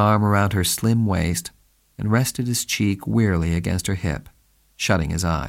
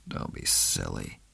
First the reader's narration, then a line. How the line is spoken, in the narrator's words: he muttered